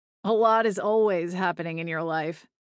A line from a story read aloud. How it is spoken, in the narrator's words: Liam said with a wry chuckle